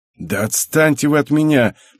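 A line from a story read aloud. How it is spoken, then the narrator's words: Hissing. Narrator (Russian): прошипел Хикару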